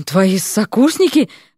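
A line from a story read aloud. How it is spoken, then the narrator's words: Forced out, strained. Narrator (Russian): выдавил, наконец, один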